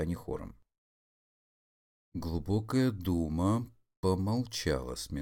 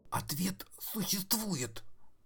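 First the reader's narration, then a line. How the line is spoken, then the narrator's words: Hoarse question. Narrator (Russian): спросил Фуцк сиплым голосом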